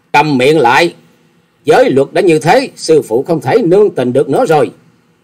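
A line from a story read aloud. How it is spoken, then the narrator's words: Angry loud shout. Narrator (Vietnamese): Hà Xà Tiên Tử giận dữ quát to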